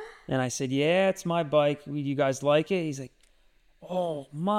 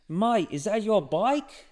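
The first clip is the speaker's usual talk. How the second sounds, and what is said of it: Imitated young kids' local accent. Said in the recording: “these 2 8-year-olds start chatting me up saying, is that, should I do the accent?”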